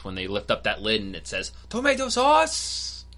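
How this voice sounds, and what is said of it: Stereotypical put-on accent. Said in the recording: “you kind of did it in a very stereotypical accent”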